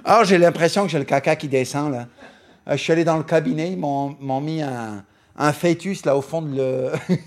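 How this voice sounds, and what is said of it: Poor put-on Canadian French accent. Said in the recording (French): “J'arrive pas à faire le Canadien, mais le accent canadien ... j'arrive pas à faire l'accent canadien, c'est lamentable”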